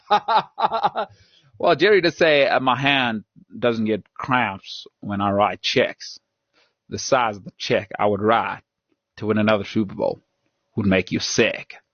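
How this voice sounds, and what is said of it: Southern drawl impression of another person. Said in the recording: “another Jerry impersonation? ... That's my best Southern draw I got.”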